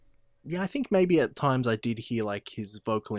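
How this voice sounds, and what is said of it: Usual voice. Nothing is said of it.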